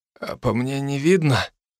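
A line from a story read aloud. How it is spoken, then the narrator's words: Hoarse, strained. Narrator (Russian): выдавил хрипло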